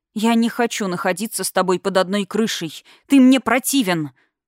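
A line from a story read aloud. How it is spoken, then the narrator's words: Angry reply. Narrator (Russian): зло ответила я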